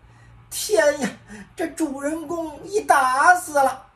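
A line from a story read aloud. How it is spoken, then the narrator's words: Crowd weeping and wailing. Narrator (Chinese): 众皆是伏尸而哭，悲悲啼啼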